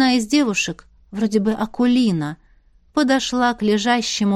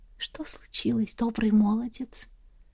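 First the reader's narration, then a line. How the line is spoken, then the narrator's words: Whisper. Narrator (Russian): зашептала она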